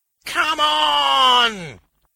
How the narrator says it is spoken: he howled

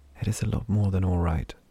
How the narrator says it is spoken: Vesh whispered back

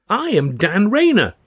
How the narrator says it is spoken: the stripling cried

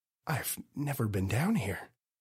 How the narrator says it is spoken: Daryl whispered

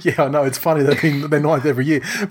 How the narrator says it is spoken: we would have been laughing, going

